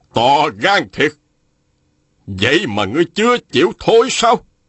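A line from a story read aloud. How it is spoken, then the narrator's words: Angry shout. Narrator (Vietnamese): Phùng Nan Địch quát lên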